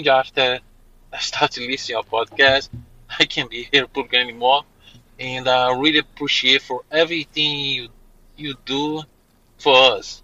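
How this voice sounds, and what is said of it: Non-native English accent. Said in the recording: “I'm sorry about my English. My English is not very 100% ... Don't worry about your accent. We are a full accent service podcast. We don't mind immigrants.”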